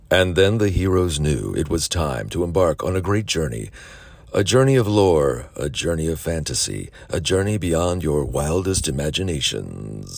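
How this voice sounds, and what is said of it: Deep narrator voice. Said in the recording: “deep voice”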